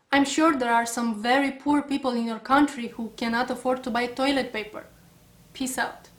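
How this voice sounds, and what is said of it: Woman speaking with an accent. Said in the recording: “her accent and all”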